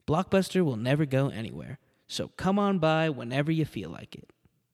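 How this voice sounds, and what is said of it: Soothing advertisement announcer voice. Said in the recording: “my lovely podcast voice, my advertisement voice ... I got the voice that'll put asleep a baby. Not because I'm boring, but because I'm soothing”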